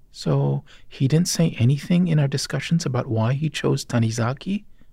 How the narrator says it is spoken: I asked

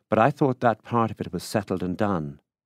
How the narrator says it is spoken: she said impatiently

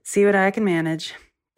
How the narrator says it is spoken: He sighed and said

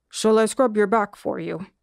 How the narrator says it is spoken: the monkey asked, his voice still low

